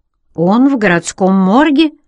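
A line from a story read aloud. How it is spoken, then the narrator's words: Somewhat confused answer. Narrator (Russian): ответил Тед несколько растерянно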